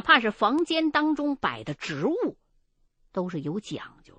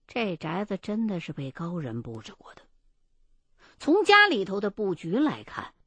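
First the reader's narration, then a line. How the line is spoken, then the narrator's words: Firm, low voice. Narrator (Chinese): 他很坚决的低声的告诉我说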